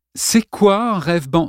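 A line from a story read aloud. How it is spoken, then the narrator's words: Plain question. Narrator (French): demanda Lawrence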